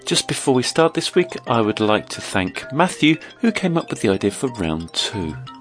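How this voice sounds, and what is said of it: Croaky voice from a cold. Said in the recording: “Got a little bit of a cold at the moment, so I apologise if my voice is a bit croaky”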